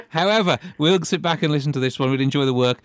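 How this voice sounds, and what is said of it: English Midlands accent. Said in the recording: “French never sounded right with a Midlands accent”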